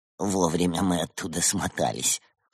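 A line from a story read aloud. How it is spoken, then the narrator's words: Young man's grunt. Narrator (Russian): хмыкнул юный Уйсур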